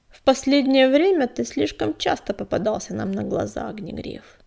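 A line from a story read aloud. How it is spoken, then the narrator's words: Cold. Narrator (Russian): холодно произнес он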